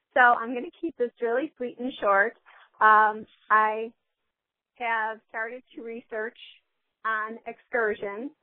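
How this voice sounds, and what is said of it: Hoarse, weakened voice. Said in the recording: “I just have bronchitis, so my voice isn't very good, so I couldn't call yesterday because I didn't have a voice”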